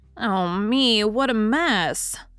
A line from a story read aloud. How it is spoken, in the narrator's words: sighed Nan